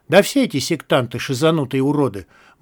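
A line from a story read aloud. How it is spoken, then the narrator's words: Grim. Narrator (Russian): мрачно проговорил первый мародер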